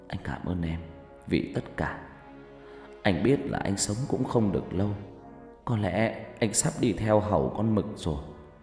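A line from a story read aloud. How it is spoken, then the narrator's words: Whispering. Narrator (Vietnamese): Phát thì thào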